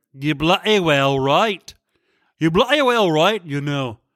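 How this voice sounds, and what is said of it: Exaggerated put-on accent. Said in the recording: “I just kept exploring my accent further and further ... I had to make my accent even worse”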